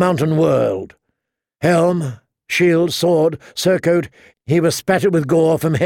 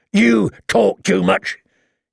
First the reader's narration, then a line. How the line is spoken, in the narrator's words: grumbled